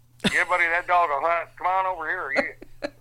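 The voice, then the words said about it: Put-on Southern US accent. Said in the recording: “adopts the accent of where I am ... down south ... down in Nashville”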